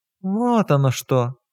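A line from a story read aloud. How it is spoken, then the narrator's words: Mocking drawl. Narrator (Russian): насмешливо протянула Маргарита Тихоновна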